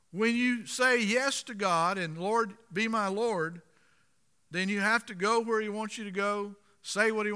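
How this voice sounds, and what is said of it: Florida Southern US accent. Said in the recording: “you were born and raised in Florida. We can tell you've got an accent.”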